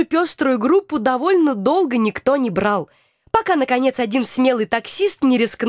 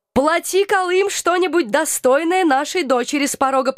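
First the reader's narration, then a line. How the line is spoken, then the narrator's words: Cheerful demand, greedy undertone. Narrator (Russian): потребовал мой папа у Алекса, весело, однако не мог скрыть жадности в голосе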